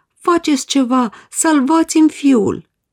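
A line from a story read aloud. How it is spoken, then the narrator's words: Father pleading. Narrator (Romanian): implora tatăl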